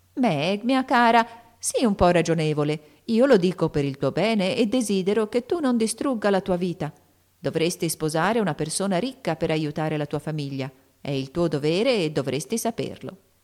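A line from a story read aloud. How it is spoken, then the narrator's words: Honeyed sweet voice. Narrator (Italian): disse con la sua voce più melliflua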